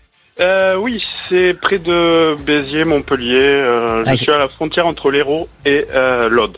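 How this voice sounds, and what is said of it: Southern French accent from Hérault. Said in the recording (French): “vous avez un joli accent, c'est quoi, c'est l'Hérault?”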